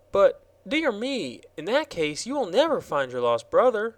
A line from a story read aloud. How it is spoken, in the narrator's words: exclaimed the girl